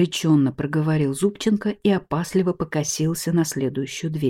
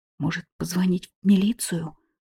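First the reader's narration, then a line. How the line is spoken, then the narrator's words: Whispered suggestion. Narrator (Russian): шепотом предложил Зубченко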